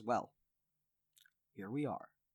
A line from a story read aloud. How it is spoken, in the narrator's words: He smiles at you warmly from uh, across the room and he says